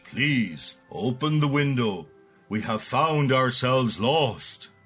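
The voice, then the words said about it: Low-voiced Father Christmas line. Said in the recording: “he said in a low voice.”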